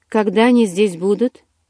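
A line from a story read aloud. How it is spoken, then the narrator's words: Sharp question. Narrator (Russian): резко спросил Карлайл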